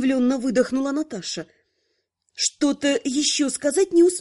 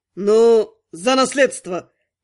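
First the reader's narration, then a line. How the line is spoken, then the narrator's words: Witcher's barking shout. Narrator (Russian): гаркнул ведьмак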